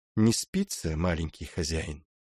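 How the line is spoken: Calm, matter-of-fact nanny, muffled. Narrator (Russian): Вопрос раздался из недр шалаша, спокойно и буднично, как если бы няня ожидала позднего явления воспитанника

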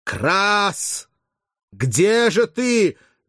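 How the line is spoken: Breathless intermittent shouting. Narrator (Russian): задыхаясь, кричал Спартак время от времени

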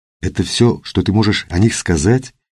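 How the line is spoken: Quiet question. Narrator (Russian): тихо спросила Катя

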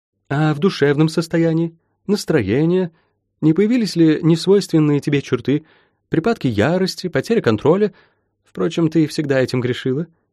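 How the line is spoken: Giggling old woman. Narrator (Russian): хихикнула бабка

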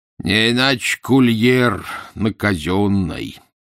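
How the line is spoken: Lazy. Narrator (Russian): лениво сказал капрал

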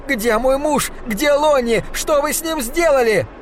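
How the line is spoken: Desperate scream. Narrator (Russian): не выдержала и закричала

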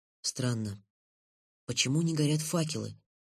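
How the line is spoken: Whisper. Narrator (Russian): шепнул Лен

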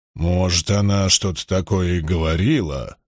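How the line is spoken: Embarrassed mumble. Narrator (Russian): смущенно пробормотал Лоэл

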